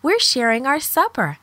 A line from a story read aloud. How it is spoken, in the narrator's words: Deborah exclaimed